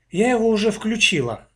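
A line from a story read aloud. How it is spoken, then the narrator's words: Glum. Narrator (Russian): уныло ответила Аня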